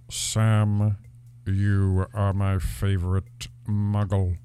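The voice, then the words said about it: Imitates Snape's voice. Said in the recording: “please say in your Snape voice ... the best Alan Rickman impression I could possibly pull out on the spot”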